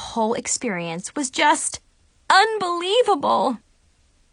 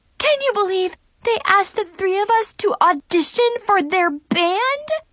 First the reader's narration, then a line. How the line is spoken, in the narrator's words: Chloe squealed